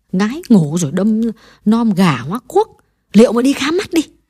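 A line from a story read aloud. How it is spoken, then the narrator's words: Old woman muttering. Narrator (Vietnamese): Bà lẩm bẩm nhắc lại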